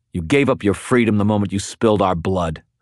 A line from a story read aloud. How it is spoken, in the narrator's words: I snarled